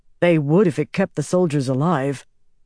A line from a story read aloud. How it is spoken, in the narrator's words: Bryn said